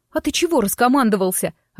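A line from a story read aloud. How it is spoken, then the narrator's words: Snapping, sniffling. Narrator (Russian): огрызнулась я, хлюпая носом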